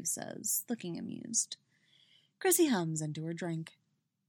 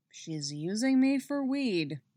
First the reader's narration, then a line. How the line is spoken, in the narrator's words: Eddie grumbles